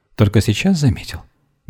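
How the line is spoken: Gentle smiling reproach. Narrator (Russian): мягко с улыбкой упрекнула его Вера

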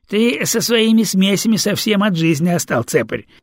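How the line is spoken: Giggling astrologer. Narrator (Russian): хихикнул астролог

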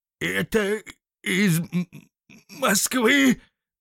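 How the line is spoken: Stammering question. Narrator (Russian): запинаясь, переспросил он

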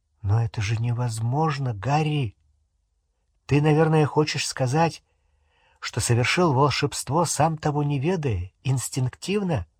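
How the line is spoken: Quiet. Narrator (Russian): Гермиона негромко сказала

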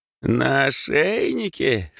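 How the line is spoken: Loud laughter. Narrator (Russian): баба Маша и расхохоталась

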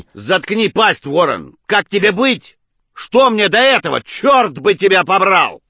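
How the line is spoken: Shouting, pleading and cursing. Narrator (Russian): Джеймс, чередуя мольбы с проклятиями, кричал в трубке

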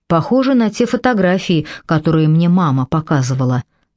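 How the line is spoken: Plain. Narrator (Russian): сказал Дэвид

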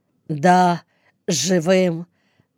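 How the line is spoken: Trembling voice. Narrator (Russian): добавил он дрогнувшим голосом

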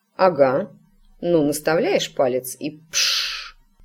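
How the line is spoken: Gloomy mutter, mother. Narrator (Russian): мрачно буркнула матушка

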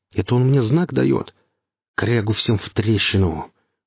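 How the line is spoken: Relieved, joyful exhale. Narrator (Russian): выдохнул с облегчением Гриф и радостно усмехнулся

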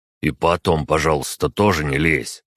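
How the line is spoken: Young man grumbling. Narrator (Russian): проворчал парень

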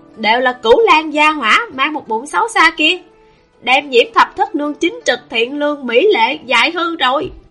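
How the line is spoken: Anguished howl. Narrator (Vietnamese): Lưu Thanh Tùng thống khổ gào lên

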